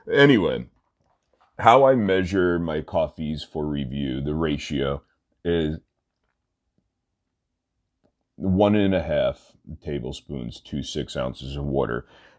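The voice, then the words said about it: Stuffy, congested nasal voice. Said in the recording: “I sound a little stuffy ... my nose is so stuffed that it actually hurts to the touch”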